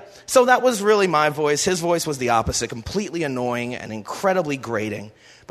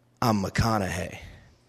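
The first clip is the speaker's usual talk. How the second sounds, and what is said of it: Slow, smooth Matthew McConaughey impression. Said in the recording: “I can't do a real Southern Matthew McConaughey accent ... you just talk real slow ... My voice was smooth like butters”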